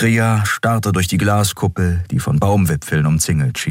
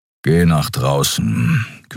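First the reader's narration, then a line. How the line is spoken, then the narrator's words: Growl. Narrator (German): knurrte Keru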